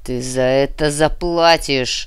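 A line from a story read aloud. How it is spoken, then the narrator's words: Growled, baron. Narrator (Russian): прорычал барон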